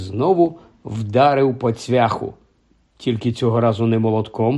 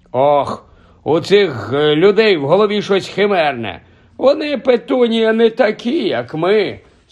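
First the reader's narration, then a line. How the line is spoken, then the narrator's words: Sorrowful sigh. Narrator (Ukrainian): скрушно зітхнув дядько Вернон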